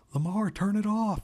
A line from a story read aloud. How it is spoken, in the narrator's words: Jessica shouted